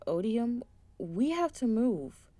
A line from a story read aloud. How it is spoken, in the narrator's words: Curvis shouted